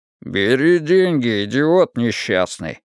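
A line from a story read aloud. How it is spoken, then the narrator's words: Grumble. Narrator (Russian): проворчал Вик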